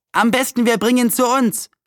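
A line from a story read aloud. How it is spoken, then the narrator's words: Boy calling out. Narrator (German): rief einer der Nachbarjungen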